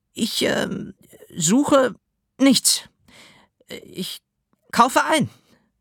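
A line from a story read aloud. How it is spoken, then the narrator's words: Stammering. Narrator (German): stotterte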